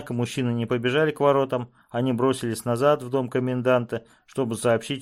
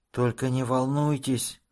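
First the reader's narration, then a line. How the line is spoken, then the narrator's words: Slow whisper. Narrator (Russian): медленно прошептал он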